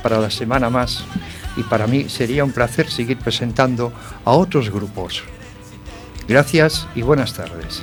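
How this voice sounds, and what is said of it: Late-night radio announcer voice. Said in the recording (Spanish): “esa voz de locutor de medianoche”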